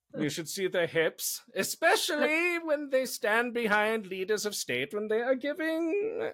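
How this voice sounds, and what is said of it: Terrible put-on German accent. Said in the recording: “I'm doing a German accent for Russians. It's terrible.”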